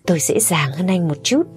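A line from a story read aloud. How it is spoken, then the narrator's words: Cheerful smiling. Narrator (Vietnamese): Người lang thang đó nghe xong khẽ nhếch miệng cười, nói một cách rất vui vẻ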